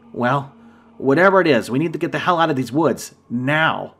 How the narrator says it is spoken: said, raising my voice

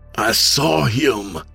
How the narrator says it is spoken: James insisted, his voice urgent

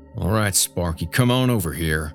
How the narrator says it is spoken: Dale said between clenched teeth, just audible

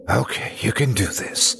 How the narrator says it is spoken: I whispered to myself

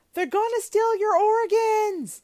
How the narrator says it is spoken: one of them actually screamed

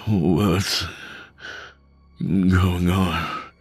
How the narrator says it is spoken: He slurred

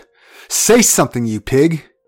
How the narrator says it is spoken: She often spoke out and even shouted

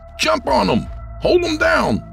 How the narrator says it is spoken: Trent shouted

